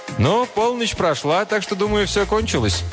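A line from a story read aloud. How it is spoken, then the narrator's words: Cheerful. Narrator (Russian): Один из них весело сказал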